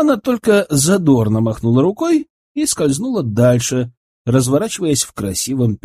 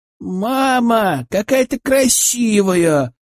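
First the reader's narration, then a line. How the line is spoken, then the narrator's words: Delighted shout. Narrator (Russian): восхищенно закричала Лена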